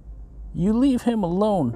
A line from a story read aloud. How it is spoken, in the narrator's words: Tanya yelled from inside the house with a hysterical weep